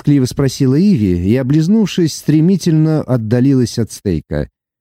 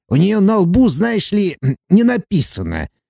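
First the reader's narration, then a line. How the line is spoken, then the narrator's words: Angry puffing. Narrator (Russian): зло пропыхтел карлик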